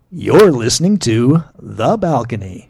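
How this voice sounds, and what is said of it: Announcer-style radio voice. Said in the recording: “you're using radio voice?”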